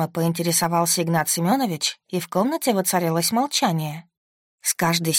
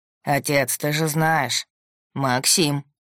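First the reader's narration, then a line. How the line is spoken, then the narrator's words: Stern. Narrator (Russian): строго сказал Игнат Семенович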